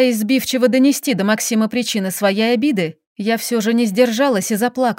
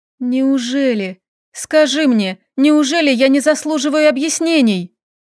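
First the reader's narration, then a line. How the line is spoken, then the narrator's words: Sniffling, plaintive. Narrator (Russian): Шмыгая носом, продолжила жалобно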